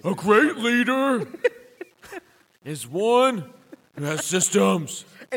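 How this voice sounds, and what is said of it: Imitates another person's voice, poorly. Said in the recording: “That does not sound like him at all. ... That was a really bad impersonation.”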